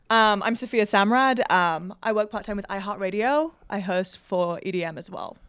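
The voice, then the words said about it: British accent. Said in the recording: “you can tell by that silly accent she's from across the pond.”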